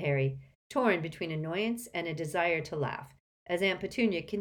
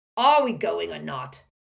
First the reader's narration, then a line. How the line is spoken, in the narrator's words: roared Uncle Vernon